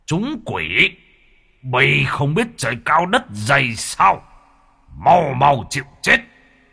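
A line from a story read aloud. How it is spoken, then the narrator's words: Angry door god. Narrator (Vietnamese): Môn thần bị mắng như thế thì tức giận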